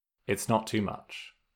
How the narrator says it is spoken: Zuko said softly

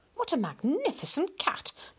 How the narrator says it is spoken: would exclaim

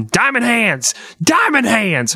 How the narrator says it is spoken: He's just screaming

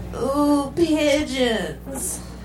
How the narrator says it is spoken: Mike moaned

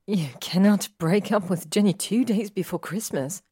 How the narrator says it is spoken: Hermione says angrily

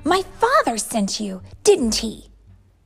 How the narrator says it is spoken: Kiara cried

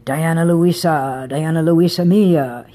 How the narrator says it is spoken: crooned, growled playfully

